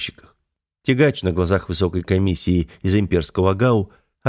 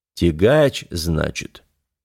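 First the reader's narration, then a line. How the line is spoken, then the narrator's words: Drawn-out drawl. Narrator (Russian): протянул князь Урокфорд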